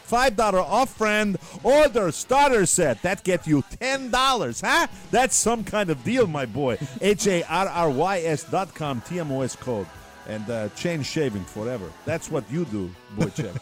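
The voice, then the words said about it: Put-on Russian accent. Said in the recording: “I have no idea why I do Russian accent.”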